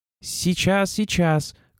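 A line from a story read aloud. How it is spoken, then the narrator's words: Forced high cheerful shout. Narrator (Russian): крикнул он, стараясь, чтобы голос звучал по-старому, высоко, радостно, беззаботно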